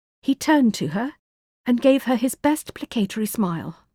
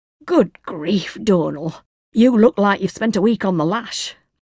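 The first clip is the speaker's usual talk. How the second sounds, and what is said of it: Thick Yorkshire accent, old woman. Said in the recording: “the thick Yorkshire accent of his neighbour, Mrs. Sims”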